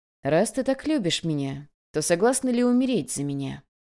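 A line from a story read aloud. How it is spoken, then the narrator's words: Tender, gentle voice. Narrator (Russian): Нежным и ласковым голосом он произнес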